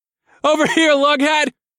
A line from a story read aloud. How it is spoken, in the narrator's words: I shouted